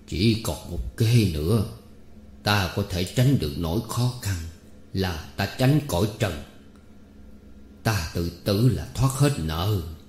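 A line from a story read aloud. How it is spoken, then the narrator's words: Confused muttering. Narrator (Vietnamese): lẩn quẩn mà lẩm bẩm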